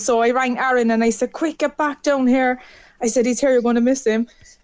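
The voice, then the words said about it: Cork Irish accent. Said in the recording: “love the accent ... bye from Cork”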